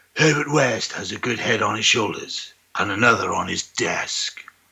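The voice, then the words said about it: Dramatic narrator voice. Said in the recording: “my narrator voice”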